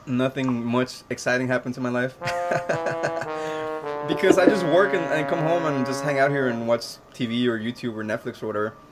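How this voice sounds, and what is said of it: Deep voice, a little worn. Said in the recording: “my voice is a little shot right now because I was practicing some songs ... I have kind of a deep voice, speaking voice”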